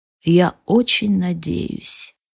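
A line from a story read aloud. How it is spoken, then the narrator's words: Barely audible whisper. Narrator (Russian): шепчет он еле слышно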